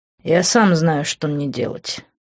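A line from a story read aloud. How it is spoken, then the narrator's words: Angrily through teeth. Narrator (Russian): зло процедил я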